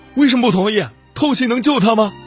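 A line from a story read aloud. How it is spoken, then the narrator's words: Frantic roaring. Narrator (Chinese): 我有些癫狂了，大吼道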